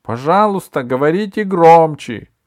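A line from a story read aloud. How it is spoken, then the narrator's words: Shouted. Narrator (Russian): крикнул он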